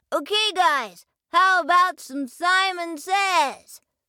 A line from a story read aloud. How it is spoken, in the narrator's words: Snip shouted out